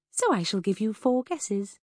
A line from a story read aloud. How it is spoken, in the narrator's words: smiled sweetly